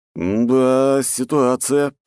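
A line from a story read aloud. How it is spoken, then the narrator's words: Drawn-out drawl. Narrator (Russian): протянул я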